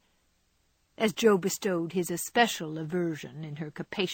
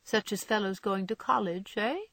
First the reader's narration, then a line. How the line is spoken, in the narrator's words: cut in Laurie, with a suggestive laugh